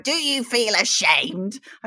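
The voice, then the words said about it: Failed imitation of Beth Rigby. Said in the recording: “I can't even do that accent.”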